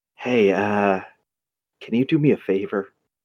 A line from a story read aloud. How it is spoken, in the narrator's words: Eddie kind of leans into you, Nanha, and whispers